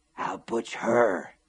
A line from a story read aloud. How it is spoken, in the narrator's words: she had whispered hoarsely